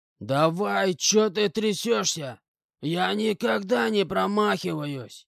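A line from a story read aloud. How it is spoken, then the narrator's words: Hoarse shout, man. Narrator (Russian): кричал хриплым голосом мужик с погонами генерала-лейтенанта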